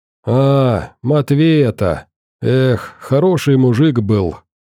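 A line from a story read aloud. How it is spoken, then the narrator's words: Heavy sigh, old man. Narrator (Russian): тяжело вздохнул дед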